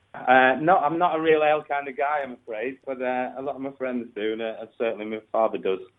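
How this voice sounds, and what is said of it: Northern English accent. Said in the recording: “I'm just picking up your accent there ... I'm from up north. I'm from near Manchester”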